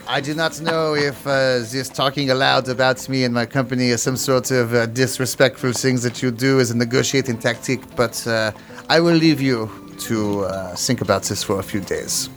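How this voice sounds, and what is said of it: Put-on French accent. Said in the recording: “a different Frenchman ... my accent”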